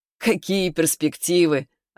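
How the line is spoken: Sudden laugh. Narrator (Russian): Орлов вдруг засмеялся

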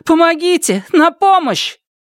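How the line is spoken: Desperate scream. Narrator (Russian): придя в себя, она закричала

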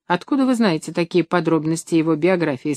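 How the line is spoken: Plain. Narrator (Russian): спросил Шустрицкий

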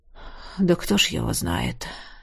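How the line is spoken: Heavy sigh. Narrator (Russian): Неожиданно тяжело вздохнул Тизар

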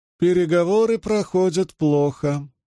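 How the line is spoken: High singsong voice. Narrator (Russian): произнесла она своим высоким певучим голосом

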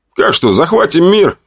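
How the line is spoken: Laughing. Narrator (Russian): хохотал я

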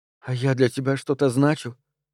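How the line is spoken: Near whisper. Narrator (Russian): Теперь Лорна говорила еле слышно, почти шептала

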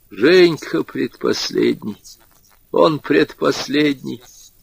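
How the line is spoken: Old woman's voice. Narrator (Russian): старушечьим голосом говорил Егор Семенович

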